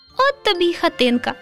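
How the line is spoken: Laughing. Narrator (Ukrainian): засміялося Руденьке

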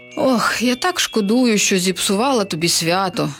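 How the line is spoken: Witch's sigh. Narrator (Ukrainian): зітхнула відьма

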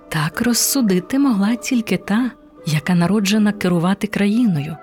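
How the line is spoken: Plain, prince. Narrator (Ukrainian): сказав принц

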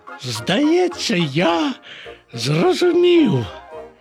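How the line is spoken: Exclaimed. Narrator (Ukrainian): вигукнув Боня

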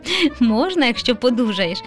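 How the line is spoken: Laughing. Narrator (Ukrainian): засміявся тато

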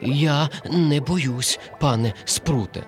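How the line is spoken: Trembling voice. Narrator (Ukrainian): тремтячим голосом мовив коник

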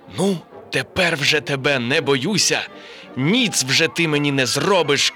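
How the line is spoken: Shouted. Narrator (Ukrainian): крикнув

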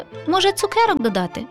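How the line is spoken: Laughing. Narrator (Ukrainian): засміялася Шумка

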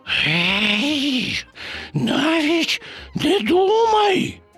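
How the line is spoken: Hissing. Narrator (Ukrainian): зашипів Боня

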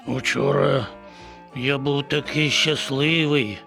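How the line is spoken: Sighing. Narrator (Ukrainian): зітхнув

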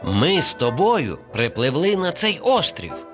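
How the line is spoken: Plain. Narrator (Ukrainian): сказала черепашка

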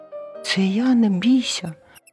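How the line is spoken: Squeaky mouse voice. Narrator (Ukrainian): писк рудої миші

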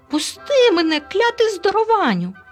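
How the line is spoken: Shriek. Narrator (Ukrainian): заверещав Елуа

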